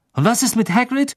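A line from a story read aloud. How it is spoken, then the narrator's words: Angry. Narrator (German): sagte Harry wütend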